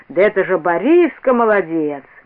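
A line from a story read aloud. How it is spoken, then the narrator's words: Loud surprised. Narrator (Russian): Дедушка Лука скажет громко, с удивлением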